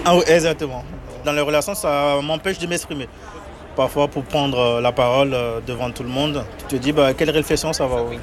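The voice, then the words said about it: Beninese French accent. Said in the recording (French): “Mon accent, c'est... Des fois, il y a par exemple les R qui ne sont pas bien prononcés ... Du Bénin. Je suis béninois.”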